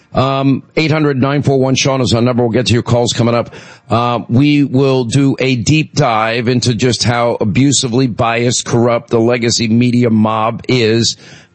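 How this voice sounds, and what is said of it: Hoarse voice from laryngitis. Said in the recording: “I don't want to hear it about my laryngitis.”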